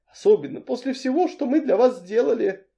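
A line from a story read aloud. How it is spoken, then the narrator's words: Sighing. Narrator (Russian): Миссис Рив вздохнула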